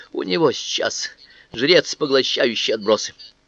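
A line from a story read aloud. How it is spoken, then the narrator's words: Frightened whisper. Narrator (Russian): произнес он испуганным шепотом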